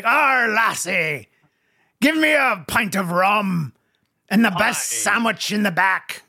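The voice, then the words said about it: Pirate voice. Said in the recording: “it's a pirate ... We can hear it in your voice.”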